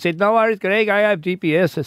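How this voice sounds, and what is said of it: Put-on French-Canadian accent. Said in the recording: “It's a great French-Canadian accent... French-Canadian... Weird French-Canadian accent.”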